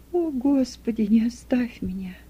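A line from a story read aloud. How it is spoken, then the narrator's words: Moaning whisper. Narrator (Russian): Почти со стоном прошептала Юдиф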